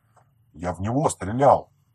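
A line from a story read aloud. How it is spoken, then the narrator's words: Guilty mutter. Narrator (Russian): виновато пробормотал Иван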